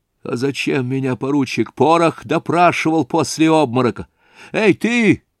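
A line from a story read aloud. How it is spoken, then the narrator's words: Shout. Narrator (Russian): крикнул он половому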